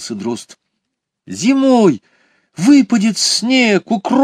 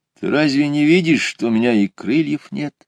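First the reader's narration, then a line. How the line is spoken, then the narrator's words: Sad hare. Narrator (Russian): грустно ответил заяц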